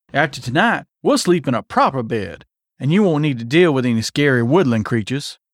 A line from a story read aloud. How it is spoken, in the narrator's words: he chuckled